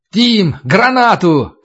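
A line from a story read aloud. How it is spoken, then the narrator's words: Shouting. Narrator (Russian): крикнул Туран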